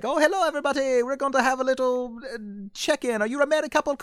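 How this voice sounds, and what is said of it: Bad put-on Irish accent. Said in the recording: “That's like the worst Irish accent I've ever heard in my life”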